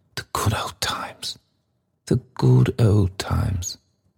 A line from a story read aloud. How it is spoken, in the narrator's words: sighed the red-faced gentleman